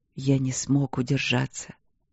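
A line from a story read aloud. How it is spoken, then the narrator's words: Repentant whisper. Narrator (Russian): покаянно шепнул он в ответ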